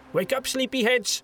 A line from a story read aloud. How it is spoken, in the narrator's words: shouted a cheerful voice in a Flatlandish accent